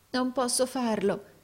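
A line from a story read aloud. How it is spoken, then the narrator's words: Trembling exclamation. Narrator (Italian): esclamò il compagno tremante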